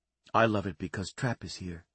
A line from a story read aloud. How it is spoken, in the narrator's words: she said softly